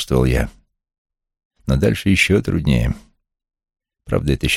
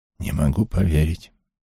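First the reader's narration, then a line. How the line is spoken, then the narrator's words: Barely audible whisper. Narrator (Russian): едва слышно прошептала она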